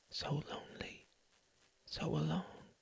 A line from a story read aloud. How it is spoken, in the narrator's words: whispered into his ear